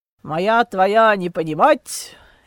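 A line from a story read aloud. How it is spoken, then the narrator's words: Malicious chuckle. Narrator (Russian): Дитрих хохотнул, зло блеснув глазами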